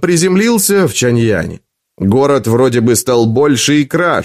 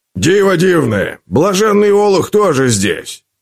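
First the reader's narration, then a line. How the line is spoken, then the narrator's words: Roared. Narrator (Russian): проревел Уиллоби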